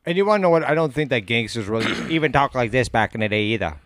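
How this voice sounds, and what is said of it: Old-time movie gangster accent. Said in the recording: “that's more of a Kennedy accent you got going on ... Oh, that accent? ... I think that was purely for movies.”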